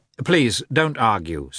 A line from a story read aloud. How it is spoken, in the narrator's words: said Levin